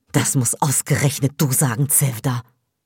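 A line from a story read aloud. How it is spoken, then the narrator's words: Hissed. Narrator (German): zischst du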